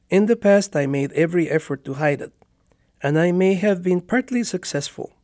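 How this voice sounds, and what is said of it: Spanish-accented English, like Ricardo Montalban. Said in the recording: “I've had a Spanish accent all my life ... I'm proud of my accent, and now I don't care if I sound at times like a modern Ricardo Montalban”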